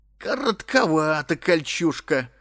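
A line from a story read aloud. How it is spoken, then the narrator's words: Chuckling man. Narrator (Russian): хохотнул мужик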